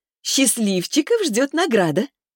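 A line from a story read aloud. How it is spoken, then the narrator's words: Chuckling. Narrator (Russian): хохотнула Лиза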